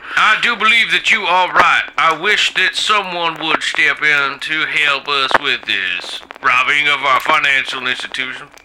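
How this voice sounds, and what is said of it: Exaggerated Deep South accent. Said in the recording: “we're throwing the deep south, kind of shitty deep south ... accent”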